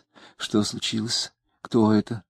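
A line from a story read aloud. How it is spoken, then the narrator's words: Anxious whisper. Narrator (Russian): тревожным шепотом спросила она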